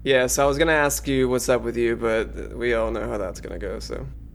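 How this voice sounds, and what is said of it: Condescending put-on character accent. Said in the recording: “you are already kind of adopting the Dr. Cogsbuckle accent a little bit ... It borders on like condescending almost.”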